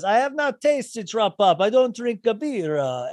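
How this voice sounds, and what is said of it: Thick Italian accent imitation. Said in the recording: “is he really an Italian accent? ... Oh, very thick. Very thick.”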